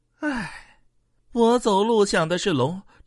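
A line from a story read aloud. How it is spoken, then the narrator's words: Sighing wistfully. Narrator (Chinese): 叶公感叹道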